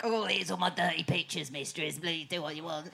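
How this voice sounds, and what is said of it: Imitates another person's voice, badly. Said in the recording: “that was a terrible impression of”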